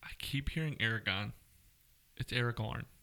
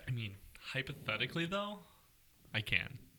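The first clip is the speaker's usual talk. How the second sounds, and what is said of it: California girl accent. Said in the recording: “You just repeated what I said, but with a California girl accent.”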